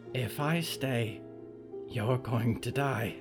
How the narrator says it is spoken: Friday whispered

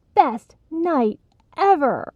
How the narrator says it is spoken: laughed as Tanya called out

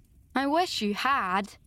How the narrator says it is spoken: sighed Anne

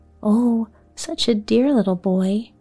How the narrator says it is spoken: broke in Amy eagerly

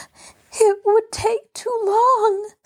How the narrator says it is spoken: sobbed Betty

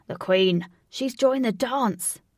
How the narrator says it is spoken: cried

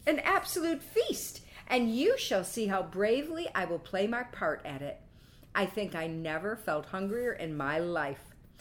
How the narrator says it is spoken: exclaimed Quicksilver, laughing

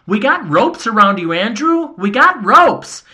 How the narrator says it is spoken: Paul and I both yelled

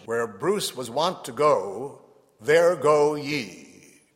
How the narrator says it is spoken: Lord Douglas ... shouted

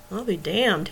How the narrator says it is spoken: he muttered

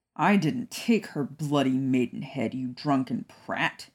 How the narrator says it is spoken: Sirius growled

